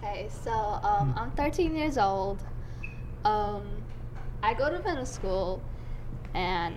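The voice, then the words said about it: Speaks English with an accent. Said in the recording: “Some people say I have accents ... Be happy with your accent.”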